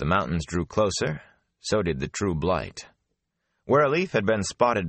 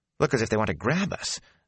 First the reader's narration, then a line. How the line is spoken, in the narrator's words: Matt said nervously